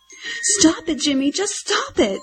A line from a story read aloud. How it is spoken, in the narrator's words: one of the girlfriends cried